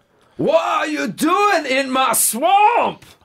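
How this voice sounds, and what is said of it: Shrek impression, Scottish accent. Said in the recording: “Shrek needs some work. ... It just sounds like ... with a Scottish accent”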